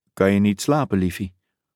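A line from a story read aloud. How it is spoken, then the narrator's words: Sighing whisper on phone. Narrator (Dutch): Katrine Brad zuchtte en fluisterde in de telefoon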